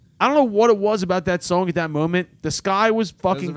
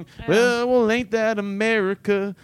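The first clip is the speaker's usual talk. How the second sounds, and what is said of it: Imitates another person's singing voice. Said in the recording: “That was a very good impression.”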